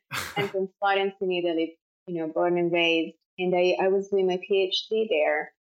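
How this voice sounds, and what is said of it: Italian accent. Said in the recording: “I'm Italian, as I'm sure it's clear from my accent.”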